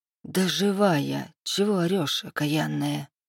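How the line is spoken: Grumbling. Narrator (Russian): проворчала я

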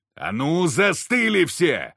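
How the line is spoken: Barking. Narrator (Russian): рявкнул тварем я

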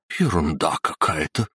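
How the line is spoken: Muttering. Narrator (Russian): пробормотала Дебера

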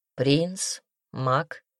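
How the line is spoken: Plain. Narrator (Russian): ответил оборотень

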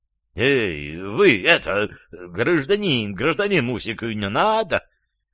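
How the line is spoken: Choked, wheezing. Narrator (Russian): хрипел в чужих жестких пальцах Иван Иванович

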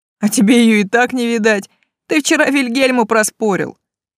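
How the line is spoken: Shout over laughter. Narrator (Russian): Сквозь новый взрыв хохота прокричал кто-то

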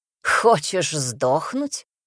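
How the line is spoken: Snorting. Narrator (Russian): хмыкнул Шет

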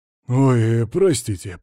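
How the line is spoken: Deep bass voice. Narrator (Russian): пробасил тип в татуировках

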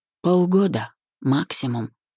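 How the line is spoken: Barely audible. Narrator (Russian): едва слышно произнес

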